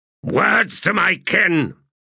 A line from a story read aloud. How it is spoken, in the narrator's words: he barked